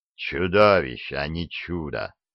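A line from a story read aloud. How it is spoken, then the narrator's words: Marquis's grumble. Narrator (Russian): пробурчал маркиз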